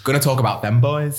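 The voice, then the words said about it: Put-on northern English accent. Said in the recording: “that northern accent ... It's really bad.”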